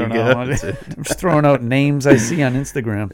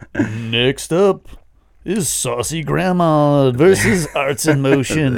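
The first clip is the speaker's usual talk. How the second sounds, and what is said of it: Announcer voice. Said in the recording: “doing a good announcer voice.”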